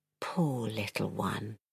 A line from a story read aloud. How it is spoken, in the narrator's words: he whispered